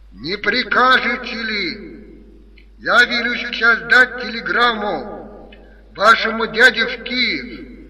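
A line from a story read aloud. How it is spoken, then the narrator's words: Shouting through cupped hands. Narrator (Russian): профессор прокричал, сложив руки рупором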